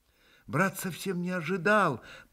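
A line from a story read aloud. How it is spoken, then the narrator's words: Mumbling. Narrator (Russian): пробормотал был Алеша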